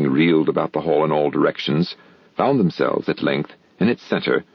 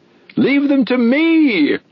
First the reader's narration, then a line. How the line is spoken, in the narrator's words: screamed Hop Frog, his shrill voice making itself easily heard through the din